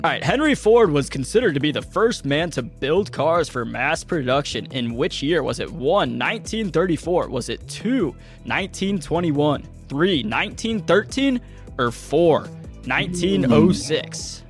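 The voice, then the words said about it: Announcer voice. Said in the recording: “I like that little voice you had going on. Trying to hear your announcer voice... That's my announcer voice”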